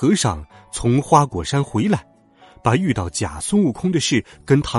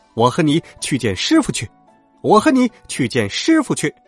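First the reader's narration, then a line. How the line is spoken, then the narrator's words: Two voices repeating, mocking and gleeful. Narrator (Chinese): 孙大圣呵呵冷笑， 那个孙悟空也哈哈欢喜，两个人口中不住的说道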